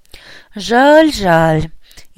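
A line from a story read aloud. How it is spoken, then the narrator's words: Sincere sigh. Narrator (Russian): искренне вздохнул правовед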